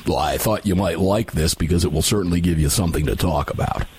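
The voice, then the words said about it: Imitates another person's voice. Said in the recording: “do my best Dave Workman impersonation ... I don't know if that's my Dave Workman or it's my Mossad IU ... That was more Mossad”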